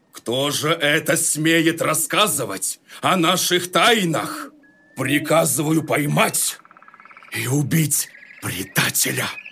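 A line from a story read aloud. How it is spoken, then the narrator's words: Lion's sudden shout. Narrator (Russian): Тут лев как закричит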